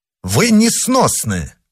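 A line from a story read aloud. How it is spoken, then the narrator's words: Exclaimed. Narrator (Russian): воскликнул герцог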